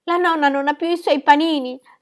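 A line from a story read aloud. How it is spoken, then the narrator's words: Sobbing. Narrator (Italian): singhiozzava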